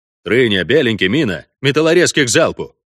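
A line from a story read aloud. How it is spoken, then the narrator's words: Barked into radio. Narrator (Russian): рявкнул в рацию Вольво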